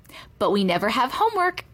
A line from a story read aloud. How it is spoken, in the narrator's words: Virginia said cheerfully